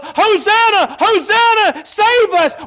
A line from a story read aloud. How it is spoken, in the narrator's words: were going to be yelling